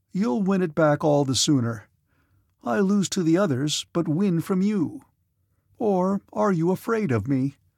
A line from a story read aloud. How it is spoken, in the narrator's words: he asked again